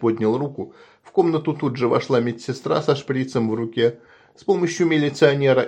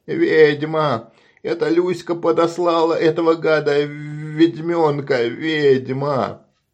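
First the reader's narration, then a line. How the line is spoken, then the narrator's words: Hoarse scream. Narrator (Russian): Анабеев закрыл лицо руками и хрипло закричал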